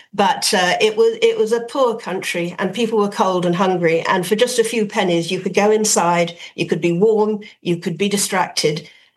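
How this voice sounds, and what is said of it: Dublin Irish accent. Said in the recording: “And Dublin in those days, as you can hear from my accent”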